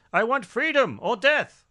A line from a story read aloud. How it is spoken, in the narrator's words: He had an outburst in court where he yelled